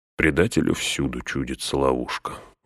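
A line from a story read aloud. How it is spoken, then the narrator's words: Weary. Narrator (Russian): устало отвечал Гэндальф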